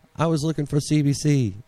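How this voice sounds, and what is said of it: Poor attempt at Canadian accent. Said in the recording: “That was not even close to a Canadian accent. I don't even know why I attempted an accent”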